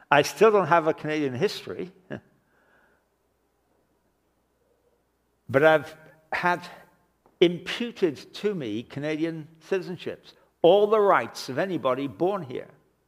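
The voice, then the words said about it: English accent. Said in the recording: “I still speak with an English accent”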